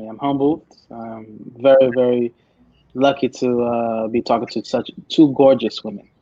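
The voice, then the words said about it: Lowered, smooth, humble-sounding voice. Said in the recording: “You sound humbled. He has a humble voice on ... You totally got the Keith Sweat thing going on right now with the voice. ... lower my voice for the ladies out there.”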